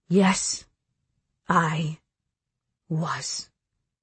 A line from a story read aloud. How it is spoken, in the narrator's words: he says slowly